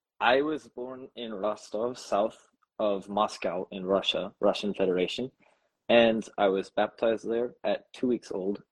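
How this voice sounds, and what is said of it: Slightly sick-sounding voice. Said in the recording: “I'm a little sick, so my voice is a little off”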